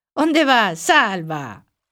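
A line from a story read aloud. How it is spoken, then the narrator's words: Shouted from afar, laughing. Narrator (Galician): berraban dende a orela e escachaban coa risa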